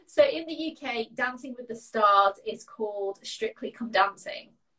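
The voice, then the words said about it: British English accent. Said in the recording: “in the UK, which is where I'm based ... just in case nobody realized from the accent.”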